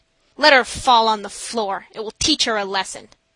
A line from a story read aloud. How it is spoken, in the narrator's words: the nurses roughly said